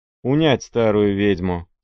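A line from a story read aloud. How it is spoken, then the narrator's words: Plain. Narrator (Russian): сказал Пугачев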